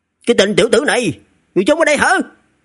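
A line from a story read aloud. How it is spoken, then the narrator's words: Surprised shout. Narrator (Vietnamese): cái giọng hét kinh ngạc của Lý Thiên Chính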